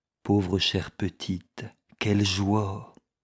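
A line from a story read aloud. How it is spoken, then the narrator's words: Murmuring. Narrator (French): murmura-t-il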